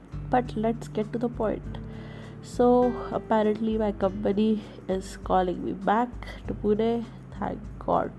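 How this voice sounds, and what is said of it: Congested, sick-sounding voice. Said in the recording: “I'm sick. I'm ill. I'm not well. ... I'm having a fever and I have a runny nose and all. So that's why my voice is like that.”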